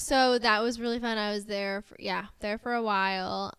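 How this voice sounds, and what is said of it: Strong American accent. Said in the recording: “my major American accent”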